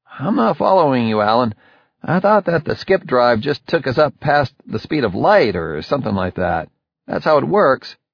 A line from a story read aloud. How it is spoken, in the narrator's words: piped up